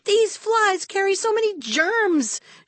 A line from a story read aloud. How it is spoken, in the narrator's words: she cried